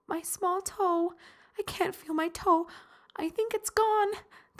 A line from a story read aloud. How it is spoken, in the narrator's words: the woman moaned and cried